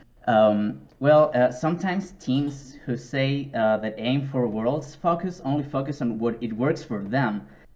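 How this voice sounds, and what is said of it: Non-native English accent. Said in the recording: “Sorry for my accent.”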